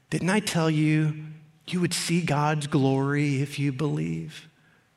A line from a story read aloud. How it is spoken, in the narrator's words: Jesus tenderly said to her